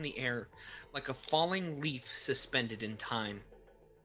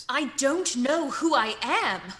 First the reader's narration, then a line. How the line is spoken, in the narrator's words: Phoenix snapped